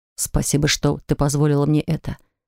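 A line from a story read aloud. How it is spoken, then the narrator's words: Tender whisper. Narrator (Russian): продолжал шептать нежности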